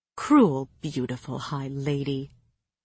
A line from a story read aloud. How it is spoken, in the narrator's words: he purred